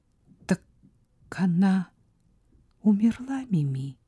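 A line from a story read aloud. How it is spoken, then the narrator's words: Quiet question. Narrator (Russian): тихо спросила Сара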